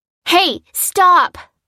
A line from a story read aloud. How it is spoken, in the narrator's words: yelled a voice from above them